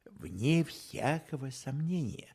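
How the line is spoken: Dry reply. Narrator (Russian): сухо ответил Холмс

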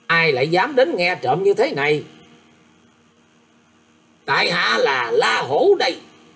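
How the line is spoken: Pale, sharp snap. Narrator (Vietnamese): Sắc mặt của cô tỳ nữ liền xanh mét, nạt lên rằng

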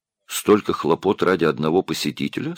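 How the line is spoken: Plain. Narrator (Russian): спросил Марк

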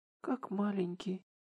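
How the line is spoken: Muttered under breath. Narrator (Russian): пробормотала Шихору себе под нос

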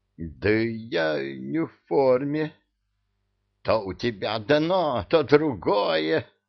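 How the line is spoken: Muffled growl behind curtain. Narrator (Russian): зарычал из-за полога эмир

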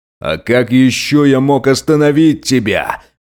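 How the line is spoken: Booming enlarged voice. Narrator (Russian): Прогремел голос, как будто увеличившегося в размерах полицейского

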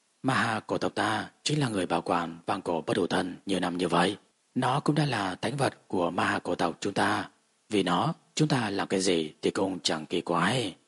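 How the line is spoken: Soft smiling speech. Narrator (Vietnamese): Ma Ha U khẽ mỉm cười nói tiếp

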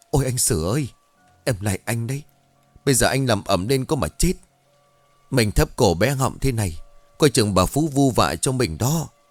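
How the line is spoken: Frightened, trembling voice. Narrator (Vietnamese): Mặt con Lý sắm ngoét miệng của nó run rẩy rồi nói

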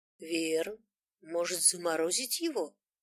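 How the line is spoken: Uncertain question. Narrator (Russian): неуверенно спросил знающий

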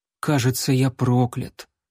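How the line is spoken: Resigned sigh. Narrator (Russian): он обреченно вздохнул

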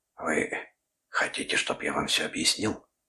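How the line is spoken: Whisper. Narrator (Russian): прошептал он

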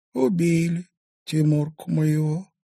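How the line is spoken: Sighing. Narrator (Russian): вздохнула Устинья

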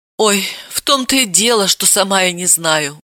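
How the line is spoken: Sighing. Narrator (Russian): вздохнула та

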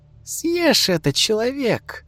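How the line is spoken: Cheerful witch. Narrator (Russian): Голос ведьмы звучал весело

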